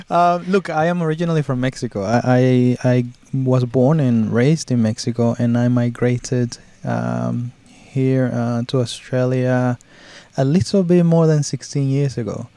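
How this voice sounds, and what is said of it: Speaks English with a foreign accent. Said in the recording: “I can hear you have an accent compared to me anyway”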